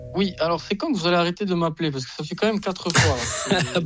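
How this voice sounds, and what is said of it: Corsican French accent. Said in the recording (French): “Vous êtes Corse, vous êtes Bastier ... On entend quand même votre accent là, il vient pas, il n'est pas inventé ... C'est un vrai accent.”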